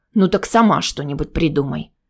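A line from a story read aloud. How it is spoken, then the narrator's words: Grumbled without turning. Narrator (Russian): буркнул он, не оборачиваясь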